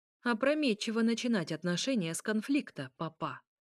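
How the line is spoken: Plain. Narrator (Russian): ответил Михаил

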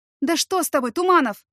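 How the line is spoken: Astonished exclamation. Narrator (Russian): воскликнула я изумленно

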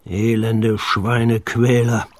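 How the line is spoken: Growling. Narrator (German): knurrte der dicke

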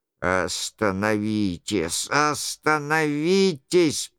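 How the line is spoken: Hoarse voice. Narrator (Russian): произносил хриплым голосом

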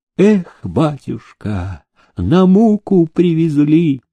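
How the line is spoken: Old man's heavy sigh. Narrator (Russian): тяжело вздохнул стоявший в толпе старичок

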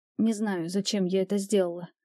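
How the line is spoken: Barely audible mutter. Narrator (Russian): едва слышно пробормотала я

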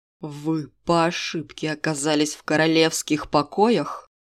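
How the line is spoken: Ringing hiss. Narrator (Russian): он умудрился прошипеть эти слова с остальным звоном в каждом звуке

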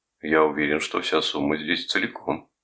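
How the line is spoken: Calm reply. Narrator (Russian): спокойно ответил Томас

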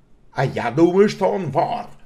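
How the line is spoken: Growled, less angrily. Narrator (Russian): прорычал мужчина, но уже не так сердито

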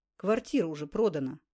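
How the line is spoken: Gruff mutter. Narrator (Russian): буркнул посетитель

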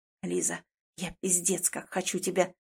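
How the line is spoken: Halting, heated mumble against lips. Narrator (Russian): Бормочет Чижов сбивчиво и жарко мне в губы

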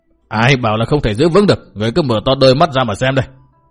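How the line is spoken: Shouted. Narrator (Vietnamese): Bao Đà Thắng quát

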